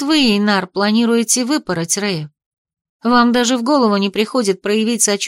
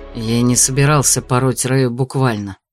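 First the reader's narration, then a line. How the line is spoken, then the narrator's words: Displeased, through gritted teeth. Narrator (Russian): процедил Эйнар, недовольно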